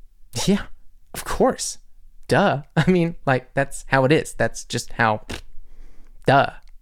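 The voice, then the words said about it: Put-on Valley Girl accent. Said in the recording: “speak German with a Valley Girl accent?”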